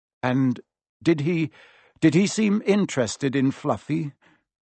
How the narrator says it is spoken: Harry asked, trying to keep his voice calm

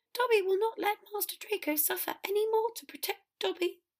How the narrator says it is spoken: Dobby proclaimed in a bolder voice, as noble sounding in that squeaky little voice

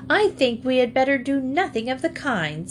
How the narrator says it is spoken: said Henrietta crossly

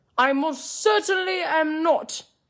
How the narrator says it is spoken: he shouted

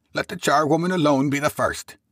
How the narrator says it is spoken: cried she who had entered first

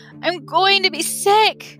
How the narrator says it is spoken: Lee moans

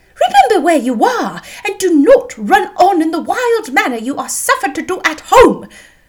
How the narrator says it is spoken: cried her mother

